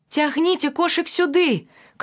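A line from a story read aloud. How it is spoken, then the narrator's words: Shouting. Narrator (Belarusian): крычу я дзяўчынкам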